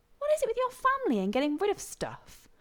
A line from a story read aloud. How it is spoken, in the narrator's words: Rodney asked indignantly